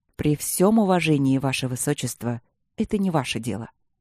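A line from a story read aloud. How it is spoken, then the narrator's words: Calm reply. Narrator (Russian): ответил маг спокойно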